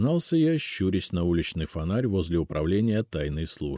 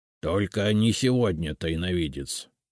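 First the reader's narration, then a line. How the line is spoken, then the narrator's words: Grumbling house spirit. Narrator (Russian): проворчал домовой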